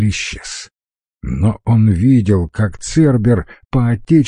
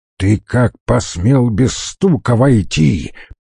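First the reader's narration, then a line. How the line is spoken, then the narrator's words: Angry bark. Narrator (Russian): побагровев, рявкнул Стариков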